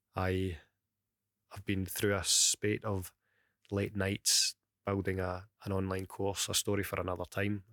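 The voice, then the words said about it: Crackly Glaswegian accent, early-morning voice. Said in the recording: “my crackled Glaswegian accent ... You can probably still hear it's quite early in the morning as well.”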